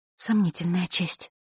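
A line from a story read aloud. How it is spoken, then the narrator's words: Girl mumbling. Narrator (Russian): пробормотала девочка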